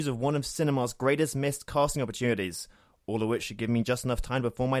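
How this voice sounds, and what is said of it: Usual voice. Nothing is said of it.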